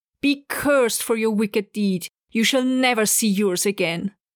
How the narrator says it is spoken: she, with her last strength, cried out to him

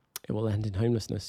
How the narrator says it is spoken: she said quietly

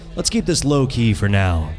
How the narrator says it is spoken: Diego said

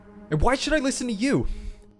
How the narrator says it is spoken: He shouted

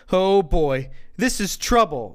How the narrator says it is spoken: Joe exclaimed

